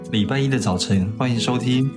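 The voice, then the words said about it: Mimicking co-host's intonation. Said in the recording (Chinese): “你干嘛抢我台词，还模仿我的语调啊？”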